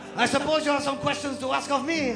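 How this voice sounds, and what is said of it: Put-on French accent. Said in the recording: “me as Marc Le Dozen ... my accent is changing. Let me get back into it.”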